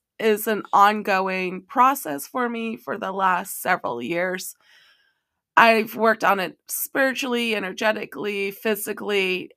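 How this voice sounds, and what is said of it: Weak, hoarse voice. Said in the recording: “have enough of a voice ... losing my voice ... I don't have a voice”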